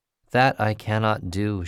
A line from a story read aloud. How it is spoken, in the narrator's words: said